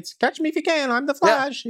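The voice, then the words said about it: Reverse Flash character voice. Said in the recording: “I did the voice. I did that reverse Flash voice”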